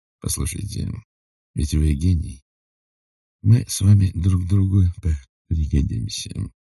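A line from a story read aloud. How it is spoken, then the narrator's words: Very quiet. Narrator (Russian): Потом очень тихо сказал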